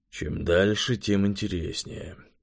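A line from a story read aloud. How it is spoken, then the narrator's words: Grumbling. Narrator (Russian): проворчал Завулон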